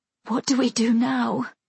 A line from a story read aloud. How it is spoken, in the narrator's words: I ask, my voice tremulous with exhaustion and growing fear